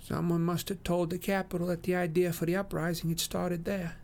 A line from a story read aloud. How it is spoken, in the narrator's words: Twill tells me faintly